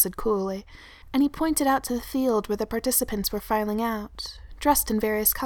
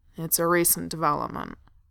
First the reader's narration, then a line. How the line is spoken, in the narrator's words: Thorin growled